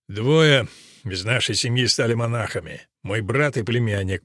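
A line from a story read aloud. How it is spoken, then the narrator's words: Father grumbling. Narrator (Russian): проворчал отец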